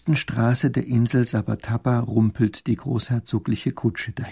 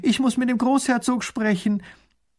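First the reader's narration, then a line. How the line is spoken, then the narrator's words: Called out. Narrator (German): ruft sie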